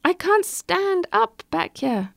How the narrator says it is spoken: cried

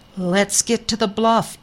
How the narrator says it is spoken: Eli called out

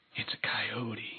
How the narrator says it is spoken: whispered

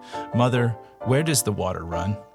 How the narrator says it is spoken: sleepily, warmly, his lost voice asking

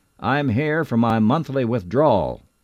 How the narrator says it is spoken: a man about my age, weaving a little bit, he hollered out

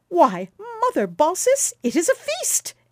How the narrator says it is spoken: exclaimed Quicksilver, laughing

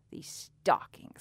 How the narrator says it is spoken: he hissed

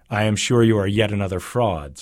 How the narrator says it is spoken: said the sun

